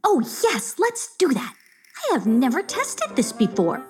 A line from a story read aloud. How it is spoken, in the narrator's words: she squealed with delight